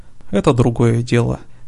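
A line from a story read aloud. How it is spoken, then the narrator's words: Calm. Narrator (Russian): все так же спокойно сказал Лейкил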